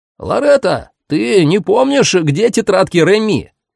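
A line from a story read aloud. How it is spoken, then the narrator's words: Shouted down corridor. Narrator (Russian): крикнул он в коридор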